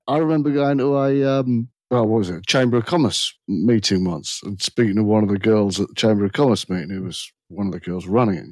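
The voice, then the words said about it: English accent. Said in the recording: “they'd hear an English accent”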